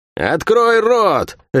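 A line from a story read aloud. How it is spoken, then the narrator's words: Barked, female. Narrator (Russian): рявкнула она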